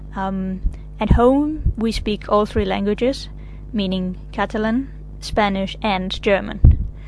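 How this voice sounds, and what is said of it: German-accented English. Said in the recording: “my German accent when I speak English”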